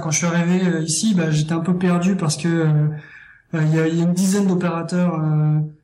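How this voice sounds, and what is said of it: French accent from France. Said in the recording (French): “je détecte un accent, fait que tu viens de probablement d'ailleurs ... je suis français”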